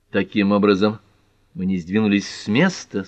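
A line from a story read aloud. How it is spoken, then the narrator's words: Dry remark. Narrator (Russian): сухо заметила Пэт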